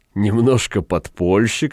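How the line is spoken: Good-natured laughing prosecutor. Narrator (Russian): сказал прокурор, благодушно смеясь

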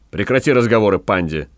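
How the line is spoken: Angry. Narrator (Russian): сердито сказал Гай

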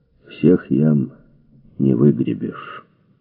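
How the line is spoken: Muffled, after a cough. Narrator (Russian): Дональд только покашлял и глухо сказал

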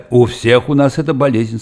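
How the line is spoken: Plain. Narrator (Russian): сказал Вайнгартен

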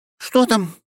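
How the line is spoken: Frightened question. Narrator (Russian): испуганно спрашивает она

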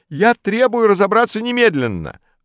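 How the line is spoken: Yelling. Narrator (Russian): орал Модест

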